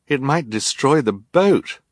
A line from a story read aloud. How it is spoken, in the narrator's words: Violet said, looking nervously up at the tattered sails